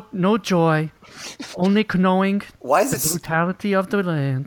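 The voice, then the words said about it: High-pitched Werner Herzog impression. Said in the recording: “Werner Herzog impression ... Why is it so high pitched? ... It was a real mealy mouth thing at the end ... High pitched.”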